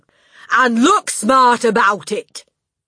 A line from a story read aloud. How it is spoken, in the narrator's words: the Trunchbull shouted